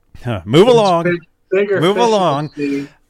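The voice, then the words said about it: Stormtrooper character voice. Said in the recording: “do that stormtrooper voice”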